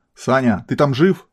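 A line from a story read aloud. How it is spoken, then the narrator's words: Yelled. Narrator (Russian): заорала Альфа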